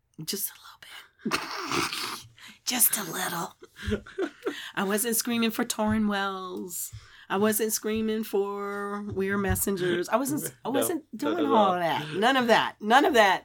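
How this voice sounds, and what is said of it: Hoarse voice. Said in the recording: “a little bit hoarse today ... That's my sexy radio voice.”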